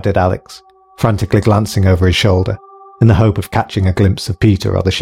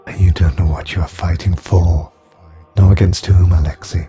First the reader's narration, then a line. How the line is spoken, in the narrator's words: sighed the girl